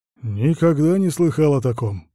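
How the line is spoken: Grumbling mutter. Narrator (Russian): пробурчал Карл

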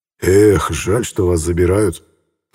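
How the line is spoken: Sighing. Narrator (Russian): вздохнул Медведев

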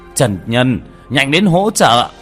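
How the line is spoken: Startled shout. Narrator (Vietnamese): Vương Bá Ngôn ngẩn ra, ngay sau đó la lên

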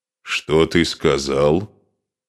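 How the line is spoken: Grim, threatening. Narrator (Russian): Мрачно с угрозой произнес Асмунд

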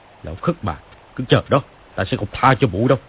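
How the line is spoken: Angry shouting curse. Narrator (Vietnamese): Hắn lau bầu chửi, quát lên

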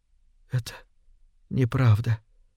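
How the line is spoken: Barely audible. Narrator (Russian): едва слышно проговорила

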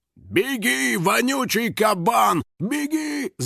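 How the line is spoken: Biker yelling. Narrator (Russian): заорал байкер

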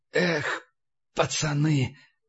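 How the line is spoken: Whisper. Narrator (Russian): прошептал Тьерндаль

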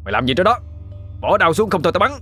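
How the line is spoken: Soldier shouting. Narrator (Vietnamese): Bên dưới nghe tiếng lính tập quát lên

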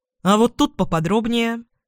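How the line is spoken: Sudden sharp question. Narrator (Russian): неожиданно резко спрашивает Романов

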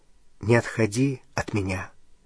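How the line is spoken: Quiet. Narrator (Russian): сказал он тихо

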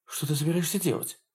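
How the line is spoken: Whisper. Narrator (Russian): прошептала Кэрол

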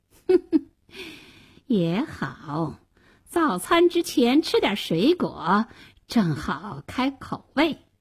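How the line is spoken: Sly sneer. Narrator (Chinese): 大灰狼狡猾地冷笑了一声说

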